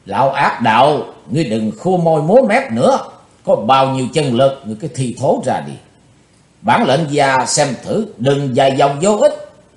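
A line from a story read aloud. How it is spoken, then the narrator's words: Deep, heavy loud shout. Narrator (Vietnamese): tinh thần của Chí Tôn phấn chấn trở lại, chàng thu hồi sự bình tĩnh, trầm nặng hét to lên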